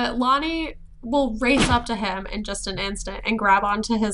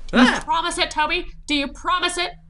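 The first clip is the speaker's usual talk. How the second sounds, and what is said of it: 1920s style accent. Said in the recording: “She says it in a 1920s accent, too.”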